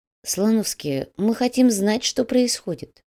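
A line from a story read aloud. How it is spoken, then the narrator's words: Quiet voice. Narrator (Russian): негромко произнес Нурсултан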